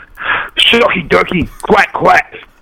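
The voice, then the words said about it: Imitates another person's voice. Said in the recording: “King Booker impersonation... That's King Booker the way he does, man.”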